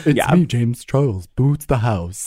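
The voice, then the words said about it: Imitates another person's voice, poorly. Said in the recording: “does an amazing impression of James Charles that I am butchering.”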